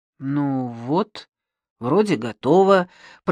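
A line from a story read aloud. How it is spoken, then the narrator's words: Slightly unsure. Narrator (Russian): произнес немного неуверенно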